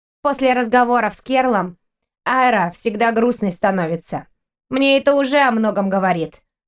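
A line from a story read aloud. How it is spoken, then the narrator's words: Grumbling boy. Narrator (Russian): проворчал мальчик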